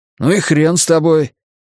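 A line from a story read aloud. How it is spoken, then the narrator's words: Nervous indignant exclamation. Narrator (Russian): воскликнул он нервно и негодующе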